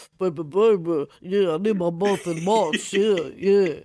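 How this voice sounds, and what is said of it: Poor imitation of a rapper's voice. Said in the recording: “my terrible Biggie impression. ... It was so bad”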